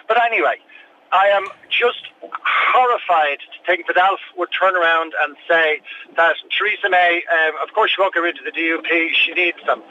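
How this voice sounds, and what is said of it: Irish accent. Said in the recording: “as you can hear from the accent, I'm Irish”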